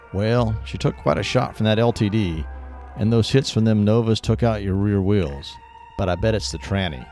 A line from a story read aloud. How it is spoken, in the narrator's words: replied Tommy